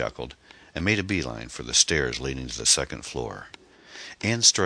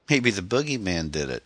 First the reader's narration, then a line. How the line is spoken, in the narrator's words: she giggled